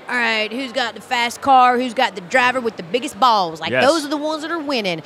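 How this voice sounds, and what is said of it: Put-on Southern country accent. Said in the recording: “I'm doing my country accent because I am Southern.”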